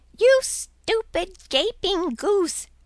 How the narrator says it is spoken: exclaimed he

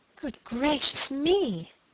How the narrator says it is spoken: cried piteously

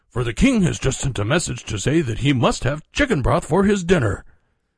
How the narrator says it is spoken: exclaimed

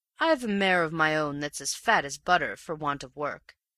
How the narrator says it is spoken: said he

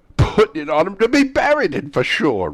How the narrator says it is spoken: replied the old woman with a laugh

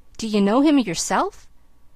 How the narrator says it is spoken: he exclaimed

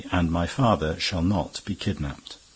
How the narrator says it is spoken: he added calmly

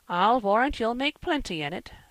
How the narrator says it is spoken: said Marilla

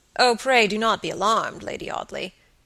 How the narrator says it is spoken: said gravely

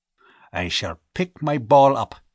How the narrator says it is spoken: he growled

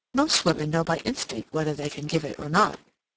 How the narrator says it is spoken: Lady Otway slipped in quickly, in rather a low voice, as if she wanted to get this said while her sister-in-law's attention was diverted

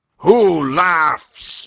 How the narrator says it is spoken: he roared

